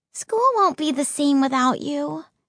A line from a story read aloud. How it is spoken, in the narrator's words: she sighed